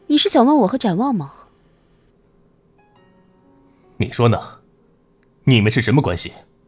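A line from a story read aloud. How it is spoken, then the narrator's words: Cold voice. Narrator (Chinese): 白慕薇冷声道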